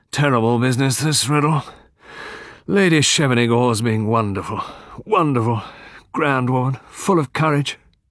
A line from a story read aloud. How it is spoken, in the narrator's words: The Colonel sighed, and said